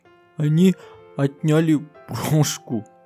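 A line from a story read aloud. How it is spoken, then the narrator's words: Whimpering. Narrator (Russian): захныкала Динки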